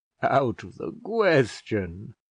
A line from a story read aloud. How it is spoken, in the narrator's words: said Mr Slope, laughing slightly